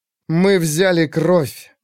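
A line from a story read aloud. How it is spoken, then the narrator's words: Through gritted teeth. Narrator (Russian): сказала она сквозь зубы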